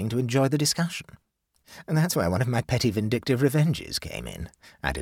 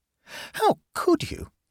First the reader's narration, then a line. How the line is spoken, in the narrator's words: exclaimed Amanda